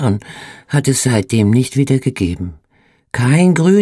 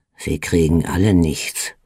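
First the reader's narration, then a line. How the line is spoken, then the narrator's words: Mutter. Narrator (German): murmelte er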